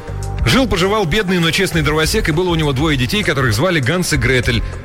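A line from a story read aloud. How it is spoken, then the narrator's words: Rattled off nonstop. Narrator (Russian): Картер без остановки протараторил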